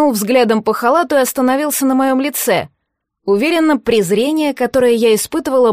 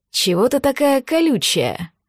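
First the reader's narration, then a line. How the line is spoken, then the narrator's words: Close whisper. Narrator (Russian): прошептал он совсем рядом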